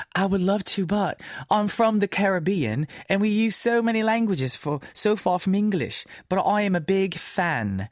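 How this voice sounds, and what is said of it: Bad put-on British accent. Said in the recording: “I did a British accent with a Caribbean message. I'm so sorry. That's very bad ... that's so bad, that the accent is hideous”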